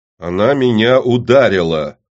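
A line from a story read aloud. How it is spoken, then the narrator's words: Loud repetition. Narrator (Russian): громко повторил Гаап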